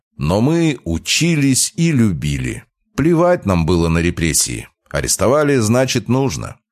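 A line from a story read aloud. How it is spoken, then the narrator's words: Speaking loudly. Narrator (Russian): говорил Никитич громко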